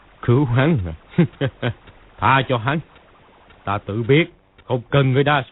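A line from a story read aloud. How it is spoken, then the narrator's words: Sneering. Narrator (Vietnamese): Công Tôn cốc chủ cười khẩy nói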